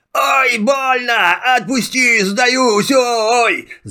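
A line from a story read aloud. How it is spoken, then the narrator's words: Genie's pained wailing. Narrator (Russian): завопил красный джин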